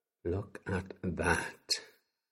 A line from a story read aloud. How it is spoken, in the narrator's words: Olivia breathed